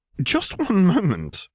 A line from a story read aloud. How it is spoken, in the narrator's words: sputtered